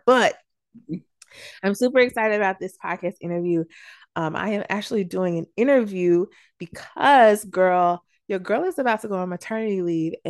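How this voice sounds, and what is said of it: Hoarse, nearly lost voice. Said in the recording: “as y'all could probably hear my voice, I actually lost my voice last week ... with me having my voice barely here”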